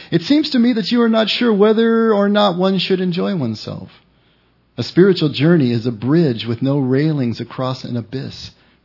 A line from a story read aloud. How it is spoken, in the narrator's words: replied Lucas